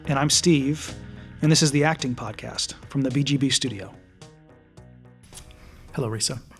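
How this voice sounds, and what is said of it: Polished radio announcer voice. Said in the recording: “in your radio voice.”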